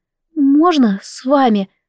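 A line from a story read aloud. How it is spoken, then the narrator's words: Timid girl asking. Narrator (Russian): робко спросила одна из девушек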